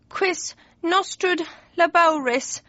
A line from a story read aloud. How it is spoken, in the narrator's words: he moaned